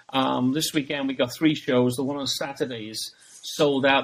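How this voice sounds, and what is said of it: British accent. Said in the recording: “I come from Britain with the accent”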